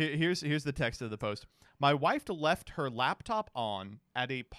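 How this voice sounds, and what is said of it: Usual voice. Nothing is said of it.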